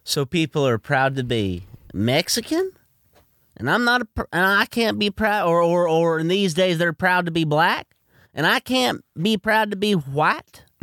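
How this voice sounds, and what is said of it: Mocking caricature voice. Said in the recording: “Now why are you doing that voice? You're mocking my culture now. ... I'm mocking white culture.”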